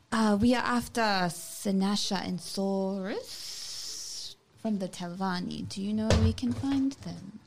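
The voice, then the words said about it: Speaks in a put-on accent. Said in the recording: “I changed my accent suddenly ... that's good”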